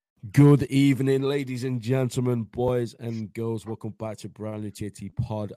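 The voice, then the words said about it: Hoarse, worn-out voice. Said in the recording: “My voice is gone because of how much I've been screaming”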